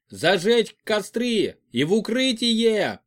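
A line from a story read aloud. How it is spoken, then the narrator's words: Shout. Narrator (Russian): закричал Федор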